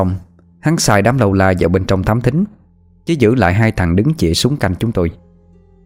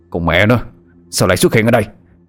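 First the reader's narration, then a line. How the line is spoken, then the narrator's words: Irritated snap. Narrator (Vietnamese): Lê Cao Hưng chụp đầu gắt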